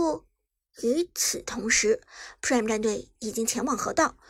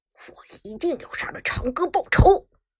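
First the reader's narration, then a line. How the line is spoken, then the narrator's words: Through gritted teeth. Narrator (Chinese): 麦克更是咬牙切齿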